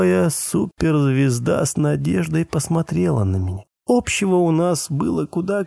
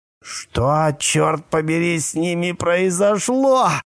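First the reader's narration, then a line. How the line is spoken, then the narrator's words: Angry growl. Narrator (Russian): прорычал он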